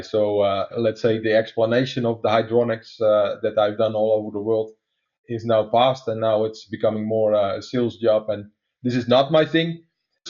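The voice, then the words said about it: Dutch accent in English. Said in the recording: “some of your listeners are trying to place my accent right now, is that I'm actually a Dutch guy. So that would explain the weird sounds you hear from me.”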